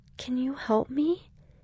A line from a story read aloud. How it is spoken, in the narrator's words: asked quietly